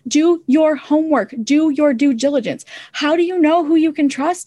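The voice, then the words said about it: Midwest American accent. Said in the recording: “I have an accent. I have a Midwest accent, I think.”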